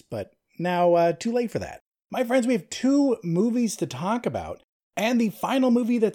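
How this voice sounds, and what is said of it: Phlegmy, slightly weird-sounding voice. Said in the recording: “my voice sounds a little weird suddenly ... now I'm super phlegmy”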